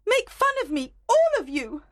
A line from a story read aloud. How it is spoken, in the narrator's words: Helena shouted